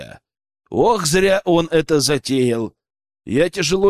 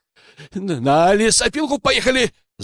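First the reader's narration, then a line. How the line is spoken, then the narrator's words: Poacher yelling. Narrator (Russian): завопил браконьер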